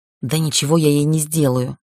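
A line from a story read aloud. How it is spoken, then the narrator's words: Hissing sorceress. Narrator (Russian): прошипела магичка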